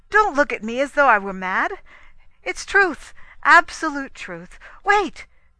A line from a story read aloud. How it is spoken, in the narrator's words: cried